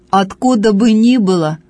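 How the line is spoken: Angry young man. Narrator (Russian): отвечал парень сердито

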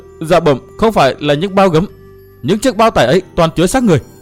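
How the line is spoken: Trembling, forcing calm. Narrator (Vietnamese): Tên quân vẫn còn run rẩy, cố lấy lại được bình tĩnh thưa

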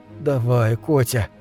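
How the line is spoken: Soft, gentle. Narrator (Russian): мягко проговорил Билл

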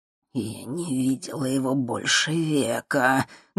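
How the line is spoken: Muffled muttering. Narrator (Russian): глухо бормотала мадам Анаит себе под нос

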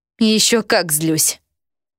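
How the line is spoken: Moaning. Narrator (Russian): Я застонала

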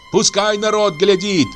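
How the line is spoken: Shouting. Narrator (Russian): кричала Аксинья

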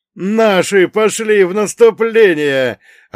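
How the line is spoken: Joyful yell. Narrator (Russian): радостно завопил Ваня

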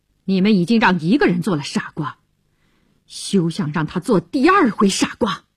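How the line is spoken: Cold. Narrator (Chinese): 乔治对他冷冷地说

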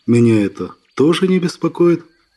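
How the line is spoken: Perfectly calm. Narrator (Russian): совершенно спокойно сказал

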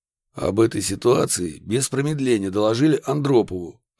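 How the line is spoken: Plain. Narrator (Russian): ответил Красильников

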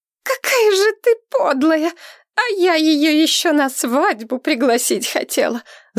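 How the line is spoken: Screaming. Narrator (Russian): завопила Камилла

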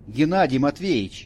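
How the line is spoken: Warning shout. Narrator (Russian): предостерегающе крикнул

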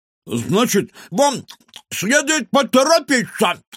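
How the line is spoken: Muffled shout from kitchen. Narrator (Russian): невнятно крикнул из кухни Кефир

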